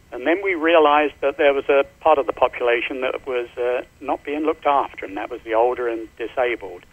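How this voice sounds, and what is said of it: Slight London accent. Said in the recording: “I noticed from your voice that you've got a little bit of a accent. ... I'm from London.”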